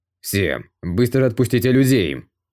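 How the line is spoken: Cold tone. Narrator (Russian): Он холодным тоном сказал

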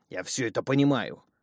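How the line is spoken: Desperate growl. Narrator (Russian): в отчаянии прорычал мужчина

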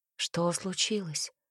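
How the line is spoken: Quiet question. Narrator (Russian): спросила тихо

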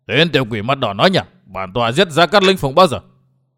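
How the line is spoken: Astonished old man's roar. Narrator (Vietnamese): Lão U Hồn Cốc Chủ kinh ngạc lão gầm lên

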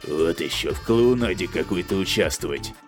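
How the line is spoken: Grumbled mutter. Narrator (Russian): буркнул Дэн

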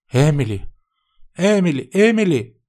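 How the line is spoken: Frightened mother exclaiming. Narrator (Russian): воскликнула мама, снова испугавшись

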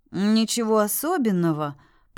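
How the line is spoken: Dismissive. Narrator (Russian): покачал тот головой

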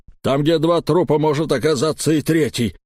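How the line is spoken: Barking snap. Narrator (Russian): рявкнул на него Эльм

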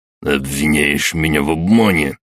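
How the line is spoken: Hissed. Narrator (Russian): прошипел граф

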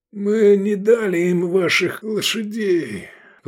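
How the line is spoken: Hoarse wounded wheeze. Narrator (Russian): прохрипел раненый

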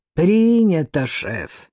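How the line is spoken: Creaky loudspeaker voice. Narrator (Russian): проскрипел в ответ динамик

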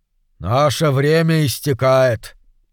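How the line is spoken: Gloomy. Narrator (Russian): мрачно сказал

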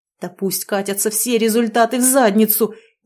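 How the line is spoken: Low growl. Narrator (Russian): низким голосом прорычал Стас

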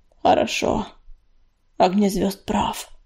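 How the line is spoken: Muttering. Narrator (Russian): пробормотала она

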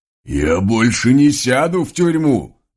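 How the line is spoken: Sudden yell. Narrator (Russian): Вдруг заорал вороной конь

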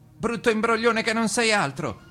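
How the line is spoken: Shout. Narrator (Italian): gridò il maggiore

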